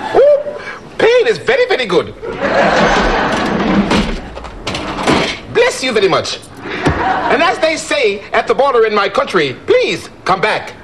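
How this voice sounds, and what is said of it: Speaks in a put-on foreign accent. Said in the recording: “that's a great accent”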